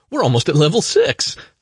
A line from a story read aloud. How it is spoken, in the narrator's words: she laughed